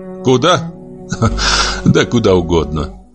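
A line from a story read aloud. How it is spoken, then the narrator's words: Said, then laughed. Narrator (Russian): сказал Королев и засмеялся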